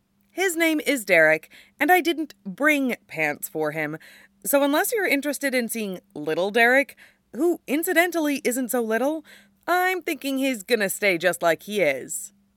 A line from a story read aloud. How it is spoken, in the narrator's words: Styles says brightly